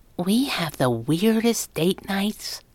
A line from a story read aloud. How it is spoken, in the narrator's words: she whispered